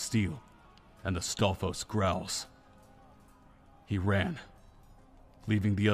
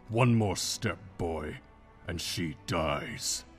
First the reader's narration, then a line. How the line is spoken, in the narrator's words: Ganondorf growled